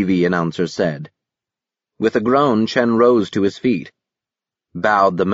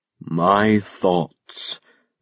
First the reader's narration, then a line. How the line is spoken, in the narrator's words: the absolute benefactor said in his rich and slow tones